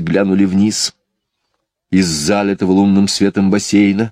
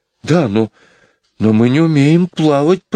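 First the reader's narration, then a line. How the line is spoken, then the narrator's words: Timid babble. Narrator (Russian): пролепетал Майкл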